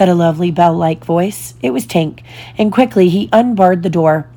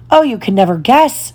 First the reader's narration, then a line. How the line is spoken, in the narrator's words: she cried